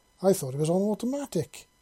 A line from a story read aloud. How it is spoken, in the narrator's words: he exclaimed